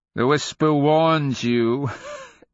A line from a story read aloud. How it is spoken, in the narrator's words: Enrilatus laughed